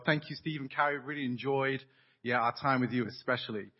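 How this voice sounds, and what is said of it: English accent. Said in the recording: “you can hear my English accent”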